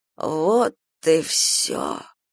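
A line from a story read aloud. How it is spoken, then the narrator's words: Hoarse rasp. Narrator (Russian): прохрипела Софья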